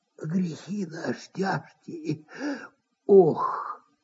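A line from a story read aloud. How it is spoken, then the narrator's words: Sighing half-whisper. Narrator (Russian): вздохнул и даже как будто прошептал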